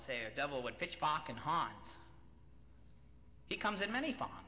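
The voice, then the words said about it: Put-on New England accent. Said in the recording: “That's what my father-in-law would say in a New England accent.”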